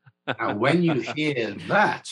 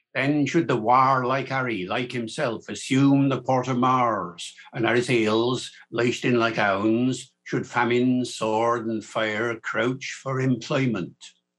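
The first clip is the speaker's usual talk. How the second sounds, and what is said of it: Shakespearean original pronunciation accent. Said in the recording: “I know that accent. I've heard something like that before... Americans hear the port of Mars and say, hey, that's American English, surely”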